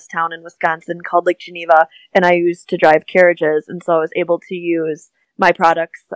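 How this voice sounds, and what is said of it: Midwestern American accent. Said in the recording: “I notice you say it differently. ... I definitely have a Midwest accent. ... I could tell. I'm like, yeah, I have a Midwest accent.”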